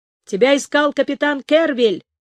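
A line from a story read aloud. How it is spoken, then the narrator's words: Shout. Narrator (Russian): крикнул беглец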